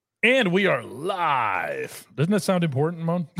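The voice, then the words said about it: Announcer-style talk radio voice. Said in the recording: “You sound like a talk radio guy”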